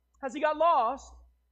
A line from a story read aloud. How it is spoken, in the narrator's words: cried